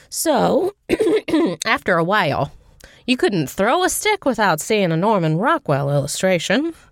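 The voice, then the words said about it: Imitates a TV character's voice. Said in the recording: “It sounded very like your Zooey Deschanel impression ... that's April Ludgate ... It was April Ludgate. Is okay. what I was going for.”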